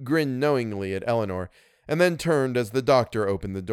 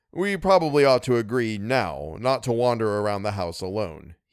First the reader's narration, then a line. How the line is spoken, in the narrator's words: he said